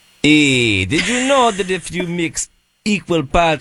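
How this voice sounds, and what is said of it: Attempted Jamaican accent sounding Russian. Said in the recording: “with a Jamaican accent ... You sound like ... Igor. You're doing like Igor. You're just like Russian.”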